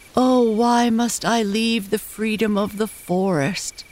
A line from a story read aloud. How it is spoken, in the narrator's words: cried one of the tall trees as he fell